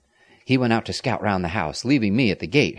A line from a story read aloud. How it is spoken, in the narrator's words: Harold said